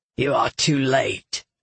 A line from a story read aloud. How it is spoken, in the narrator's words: Galathon growled